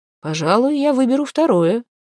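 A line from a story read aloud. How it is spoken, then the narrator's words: Calm reply. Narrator (Russian): вполне спокойно ответили ему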